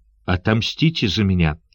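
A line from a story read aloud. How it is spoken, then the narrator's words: Hoarse rasp. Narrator (Russian): прохрипел он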